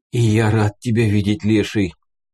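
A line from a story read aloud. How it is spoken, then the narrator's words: Strained hoarse voice. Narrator (Russian): прохрипел с трудом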